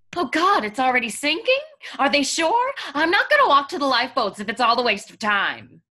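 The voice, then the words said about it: Sexy character voice. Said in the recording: “Baby, I love your sexy voice.”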